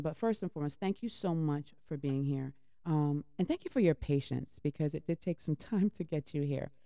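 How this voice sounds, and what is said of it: Hoarse, fading voice. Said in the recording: “I can't say anymore. My voice is going. ... My voice is going. I don't know why my voice is going.”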